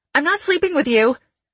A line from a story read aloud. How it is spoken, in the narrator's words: I blurted